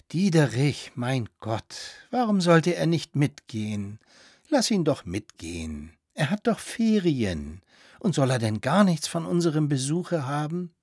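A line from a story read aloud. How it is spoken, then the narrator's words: Gentle speech. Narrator (German): sprach sanft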